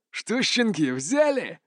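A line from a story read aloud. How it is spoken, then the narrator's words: Snide hiss. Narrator (Russian): ехидно прошипел первый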